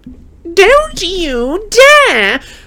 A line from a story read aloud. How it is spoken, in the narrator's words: squealed Aunt Petunia again